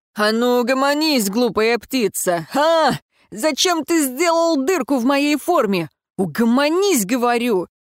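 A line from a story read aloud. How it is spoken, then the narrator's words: Yelling. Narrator (Russian): вопил Даррен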